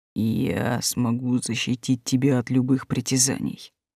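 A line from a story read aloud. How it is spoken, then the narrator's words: Low muffled dragon voice. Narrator (Russian): глухо заговорил дракон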